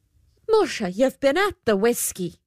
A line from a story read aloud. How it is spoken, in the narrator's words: exclaimed the good lady